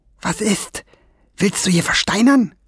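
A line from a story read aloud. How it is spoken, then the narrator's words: Hissed. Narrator (German): zischte Fliegenbein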